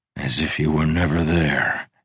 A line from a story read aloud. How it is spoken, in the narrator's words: he sighed